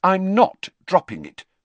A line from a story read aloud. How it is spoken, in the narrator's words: said Hermione firmly